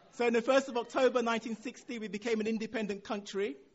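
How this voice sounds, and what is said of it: Nigerian accent. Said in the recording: “as you've guessed from my accent, my background is Nigerian”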